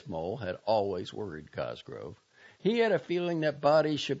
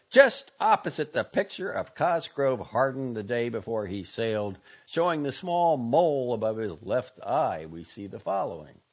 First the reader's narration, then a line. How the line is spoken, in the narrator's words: he cried